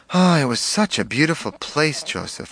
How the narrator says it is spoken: I sighed

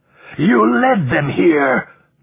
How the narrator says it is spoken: the other man shouted

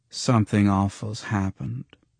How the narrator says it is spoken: she mouthed in a ghostly flat voice

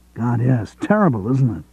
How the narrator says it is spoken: Greg exclaimed

